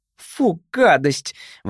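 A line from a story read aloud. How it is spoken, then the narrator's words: Exclaimed. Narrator (Russian): воскликнула Джейн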